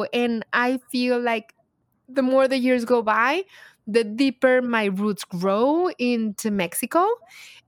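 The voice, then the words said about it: Heavy foreign accent in English. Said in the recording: “I still have a heavy accent”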